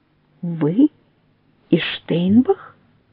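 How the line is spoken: Weighty and quiet. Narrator (Russian): Веско и тихо произносит Нелидов

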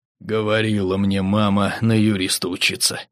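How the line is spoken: Mutter. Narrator (Russian): пробормотал он

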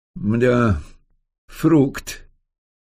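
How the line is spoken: Drawn-out drawl. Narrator (Russian): протянул Рогачев

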